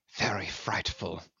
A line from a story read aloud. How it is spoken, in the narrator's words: he murmured